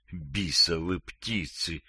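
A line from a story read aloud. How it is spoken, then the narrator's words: Barely audible cursing. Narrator (Russian): еле слышно ругался он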